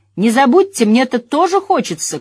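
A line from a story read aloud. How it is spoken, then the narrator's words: Shouting after someone. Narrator (Russian): крикнул Мэтт вдогонку друзьям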